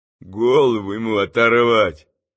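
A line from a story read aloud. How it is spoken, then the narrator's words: Distant muttering. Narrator (Russian): буркнул на галерке кто-то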